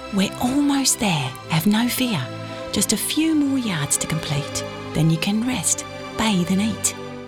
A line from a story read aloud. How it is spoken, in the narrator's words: Gerlant whispered in his ear